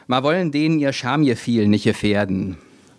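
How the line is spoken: Another woman calling out. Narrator (German): rief eine andere

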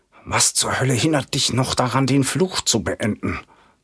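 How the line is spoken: Hissed. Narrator (German): zischt

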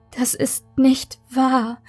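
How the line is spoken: Whimpering. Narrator (German): Maike wimmerte

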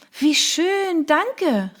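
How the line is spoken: Called out. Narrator (German): rief ich

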